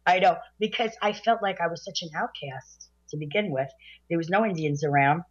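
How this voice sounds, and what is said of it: Brooklyn accent. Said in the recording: “I did everything in my power to make sure that I had a Brooklyn accent ... Oh, well, you did it extremely well.”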